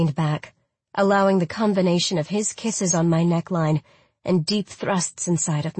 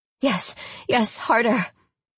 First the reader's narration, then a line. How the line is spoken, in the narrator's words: I begged as my mind overdosed on lucid euphoria